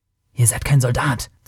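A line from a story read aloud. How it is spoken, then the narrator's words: Stranger hissing. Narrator (German): zischte der Fremde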